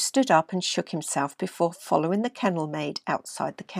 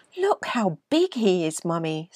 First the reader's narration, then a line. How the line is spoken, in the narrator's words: said the little boy excitedly